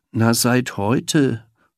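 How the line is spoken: Muffled mumbling. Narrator (German): nuschelte unter Bauch

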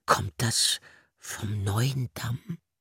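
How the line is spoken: Very quiet question. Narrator (German): fragte der Igel ganz leise, damit nur der Biber es hören konnte

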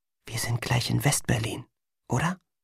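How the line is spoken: Whisper. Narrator (German): flüsterte

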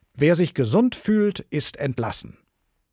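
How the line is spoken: Steward calling loudly. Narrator (German): der Verwalter rief mit lauter Stimme

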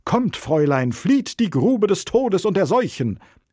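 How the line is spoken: Friar calling out. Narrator (German): ruft Bruder Lorenzo

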